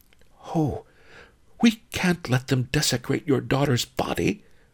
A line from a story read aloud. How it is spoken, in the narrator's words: whispered